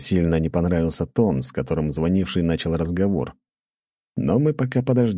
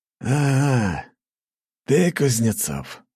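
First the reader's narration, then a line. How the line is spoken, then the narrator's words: Slightly hoarse familiar voice. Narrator (Russian): раздался знакомый слегка хрипящий голос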